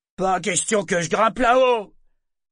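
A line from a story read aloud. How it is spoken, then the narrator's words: Loud declaration. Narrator (French): déclara un esclave d'une voix forte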